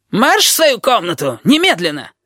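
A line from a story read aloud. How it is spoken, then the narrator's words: Yelling close to ear. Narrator (Russian): завопил над ухом Щепка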